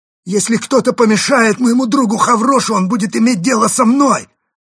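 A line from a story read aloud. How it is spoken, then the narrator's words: Loud threat. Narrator (Russian): громко пригрозил Карамп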